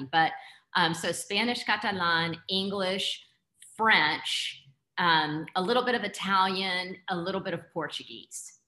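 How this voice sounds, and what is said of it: Heavy Texas accent. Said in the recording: “I speak English with a Texas accent ... my accent is very heavy”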